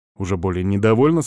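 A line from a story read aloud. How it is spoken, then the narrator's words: Plain. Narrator (Russian): сказал я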